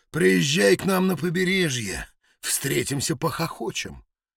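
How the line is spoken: Deep-voiced muttering man. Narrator (Russian): басового МакКлейна, бормочущего

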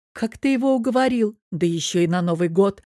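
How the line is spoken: Soft laugh. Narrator (Russian): рассмеялась я тихо

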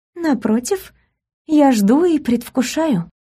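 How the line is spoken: Languid breath, faked Polish accent. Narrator (Russian): выдохнула томно, изо всех сил стараясь имитировать польку

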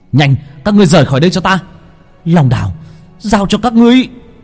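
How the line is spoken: Shout. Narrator (Vietnamese): Long Vân hét lên

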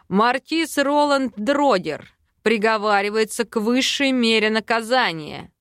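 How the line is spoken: Loud trained rumble. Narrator (Russian): Громко поставленным голосом пророкотал Эйрик

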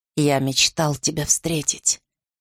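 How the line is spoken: Hoarse strained speech. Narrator (Russian): хрипло выдавил Арден

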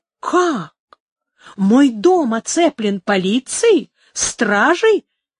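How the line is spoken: Furious exclamation. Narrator (Russian): воскликнул в бешенстве алькальд

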